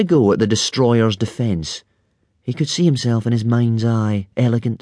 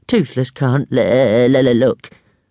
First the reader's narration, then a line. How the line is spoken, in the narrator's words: moaned Toothless, with his wings over his eyes